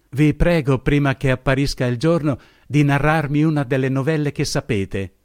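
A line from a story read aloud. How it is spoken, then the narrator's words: Exclaimed. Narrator (Italian): esclamò essa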